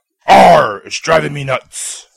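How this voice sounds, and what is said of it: Pirate voice impression. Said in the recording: “an impression of Andy doing an impression of a pirate.”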